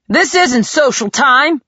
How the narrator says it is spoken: growled Hans

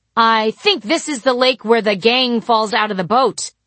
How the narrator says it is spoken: I said loudly

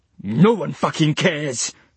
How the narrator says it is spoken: snapped Dylan

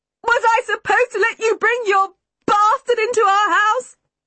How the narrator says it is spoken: Mother shouted

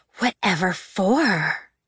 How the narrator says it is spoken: gasped the second girl

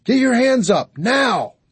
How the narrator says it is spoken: Darla yelled

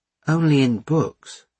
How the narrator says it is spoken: she admitted a little sadly

